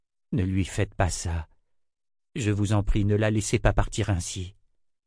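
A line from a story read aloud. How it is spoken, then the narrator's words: Murmured. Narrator (French): murmura-t-il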